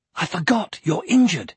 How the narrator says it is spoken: he exclaimed

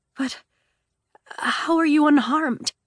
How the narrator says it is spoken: Scarlet sputtered

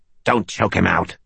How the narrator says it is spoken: she snapped

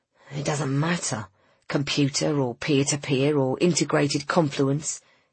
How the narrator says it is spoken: hissed Griffin

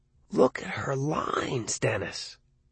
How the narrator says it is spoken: Arnie whispered

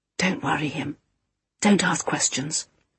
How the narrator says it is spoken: whispered Topaz

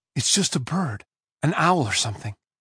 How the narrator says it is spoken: said in a loud whisper

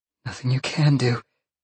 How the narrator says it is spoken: Jolene gasped

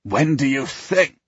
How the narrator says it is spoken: Fergus scoffs

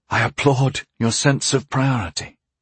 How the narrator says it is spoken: I sighed

